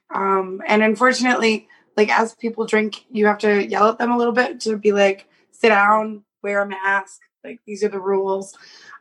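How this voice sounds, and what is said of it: Hoarse, strained voice. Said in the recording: “I lost my voice um, because it's my first week back hosting karaoke ... i have sexy birthday voice for you guys”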